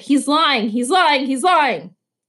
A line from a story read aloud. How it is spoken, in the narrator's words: Eric shouted